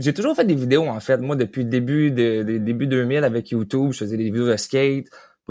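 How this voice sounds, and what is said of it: Slight Quebec French regional accent. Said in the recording (French): “je ressens un petit accent ... l'accent Trois-Rivières ... Québec, Trois-Rivières, Québec, l'accent, ça ressemble un peu plus, mais je voyais que tu n'étais pas de Montréal”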